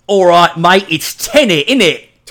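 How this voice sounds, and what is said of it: Put-on English accent. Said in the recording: “in an English Tenet. Accent”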